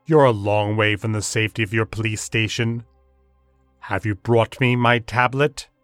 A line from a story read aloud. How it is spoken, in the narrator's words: his voice rumbled